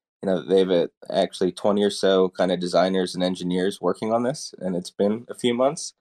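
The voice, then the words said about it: American accent. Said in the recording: “I'm American. I guess you heard from the accent.”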